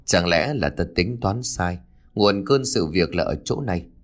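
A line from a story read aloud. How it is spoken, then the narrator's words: Old man muttering thoughtfully. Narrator (Vietnamese): cụ vừa lẩm bẩm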